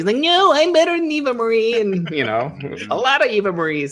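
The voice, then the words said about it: Imitates another person's voice. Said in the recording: “that was a great impression,... When I close my eyes, it's like Sami Zayn's joining the podcast.”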